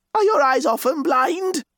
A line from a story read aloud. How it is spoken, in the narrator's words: cried, as if enraged